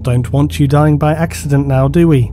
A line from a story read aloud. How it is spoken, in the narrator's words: he said